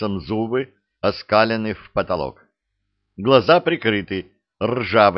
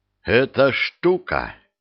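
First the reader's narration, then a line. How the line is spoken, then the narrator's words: Unusually firm voice. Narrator (Russian): непривычным твердым голосом сообщаю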